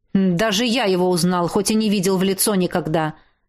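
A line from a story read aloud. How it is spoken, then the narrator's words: Snapping. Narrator (Russian): Огрызнулся я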